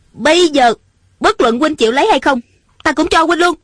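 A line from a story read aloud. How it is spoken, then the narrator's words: Angry. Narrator (Vietnamese): Ung Thanh giận dữ nói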